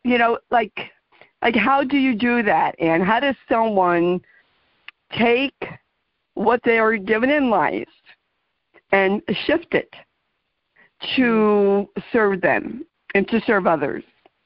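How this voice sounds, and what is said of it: New Jersey accent. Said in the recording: “my New Jersey accent.”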